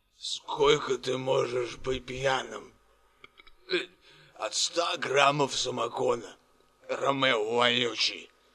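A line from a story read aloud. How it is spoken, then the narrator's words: Through gritted teeth, barely restrained. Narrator (Russian): процедил Санич сквозь зубы, едва сдерживаясь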